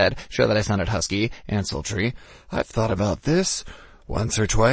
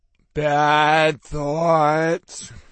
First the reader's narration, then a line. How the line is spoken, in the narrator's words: Tiggy moaned in the background